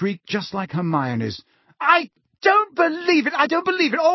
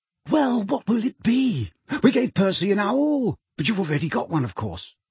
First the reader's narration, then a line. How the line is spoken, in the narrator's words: said breathlessly